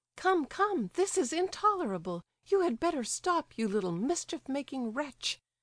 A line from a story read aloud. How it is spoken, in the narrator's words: cried Varia